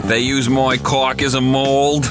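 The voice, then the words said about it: Attempted Boston accent drifting New York. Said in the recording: “Your accent's kind of... It's drifting into New York there... I'm trying to do a Boston accent.”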